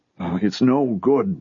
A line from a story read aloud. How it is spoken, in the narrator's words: the old man said miserably